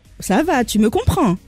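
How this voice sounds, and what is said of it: Put-on Corsican accent. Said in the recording (French): “tu peux nous faire l'accent corse ... superbe imitation”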